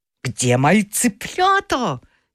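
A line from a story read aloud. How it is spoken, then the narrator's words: Angry shout, rooster father. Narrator (Russian): сердито крикнул папа-петух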